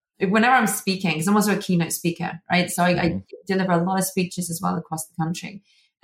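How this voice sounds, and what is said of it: British accent. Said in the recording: “this incredibly intelligent British accent”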